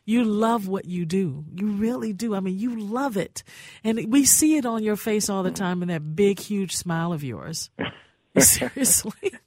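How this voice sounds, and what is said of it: Smooth, polished radio voice. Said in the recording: “you have a beautiful radio voice ... the radio voice is another level.”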